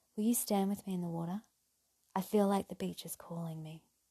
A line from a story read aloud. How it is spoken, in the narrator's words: whispered